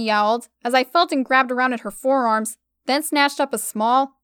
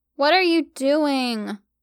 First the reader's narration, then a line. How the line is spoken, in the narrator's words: She groaned